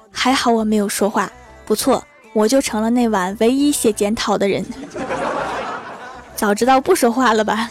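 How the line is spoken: Frightened, forced laughing. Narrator (Chinese): 我被校长的声音吓到了，跟同桌强颜嬉笑道

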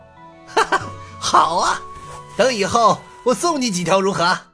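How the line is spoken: Hearty laughter. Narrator (Chinese): 洪金宝哈哈大笑道

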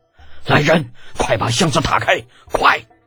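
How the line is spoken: Sharp angry shout. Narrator (Chinese): 宇文士集……再也不淡定了，厉声喝道

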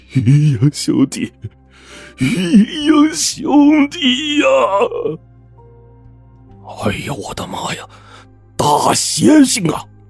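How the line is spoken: Old man shouting. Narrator (Chinese): 唐庄老头大叫

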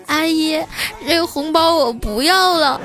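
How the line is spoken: Hesitant crying child. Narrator (Chinese): 这小家伙迟疑了五秒钟啊，哭着说

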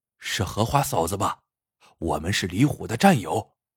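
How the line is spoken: Hushed voice. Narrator (Chinese): 指导员冲着门板压低声音说

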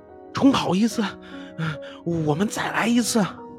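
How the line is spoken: Furious shout. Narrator (Chinese): 野兔可真是气坏了，叫道

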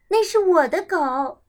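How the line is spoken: Shouting. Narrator (Chinese): 我叫道

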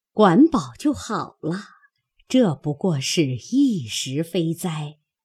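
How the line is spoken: Mumbling. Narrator (Chinese): 口内嘟嘟囔囔的又持诵了一回，说道

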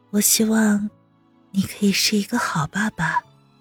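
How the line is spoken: Low voice. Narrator (Chinese): 温之夏低声道

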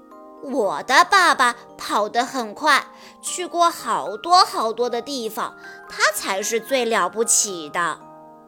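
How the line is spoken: Smiling. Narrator (Chinese): 小马笑了笑说

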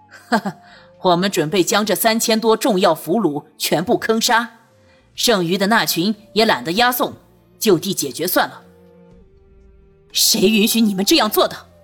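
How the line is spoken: Laughing. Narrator (Chinese): 为首的监军笑道

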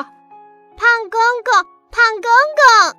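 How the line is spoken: Calling out. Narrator (Chinese): 达达就叫

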